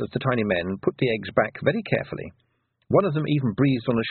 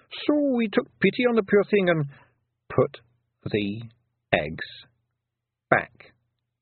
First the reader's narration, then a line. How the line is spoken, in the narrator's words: said Tiffany slowly